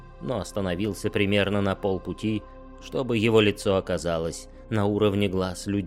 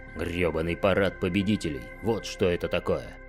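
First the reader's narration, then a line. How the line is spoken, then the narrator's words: Woman's growl. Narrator (Russian): прорычала женщина по левую руку от Кахины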